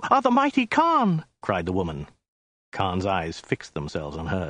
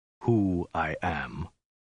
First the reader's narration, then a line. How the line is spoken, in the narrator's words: he said at length in a low, dead voice